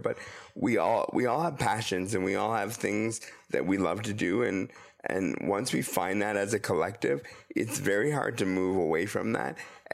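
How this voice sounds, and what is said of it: Voice sounds sick, under the weather. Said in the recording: “my voice is a little bit under the weather today, and it does sound worse than it actually is”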